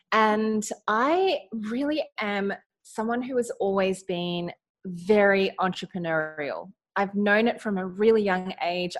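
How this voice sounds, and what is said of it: Australian accent. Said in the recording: “I am in Australia. You might be able to hear it in my accent.”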